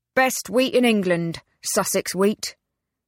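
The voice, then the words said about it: Drawling rural Sussex accent. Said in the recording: “the man replied in the old, familiar, drawling accent.”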